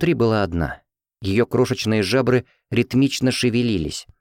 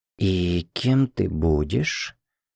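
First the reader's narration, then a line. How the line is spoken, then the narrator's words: Joyful amazed whispers and exclamations. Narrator (Russian): Шепоты и возгласы радостного изумления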